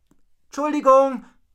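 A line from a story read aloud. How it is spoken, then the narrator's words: Called out. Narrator (German): rief Rocco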